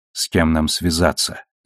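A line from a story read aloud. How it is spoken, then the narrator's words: Quiet question. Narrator (Russian): тихо спросила Наоми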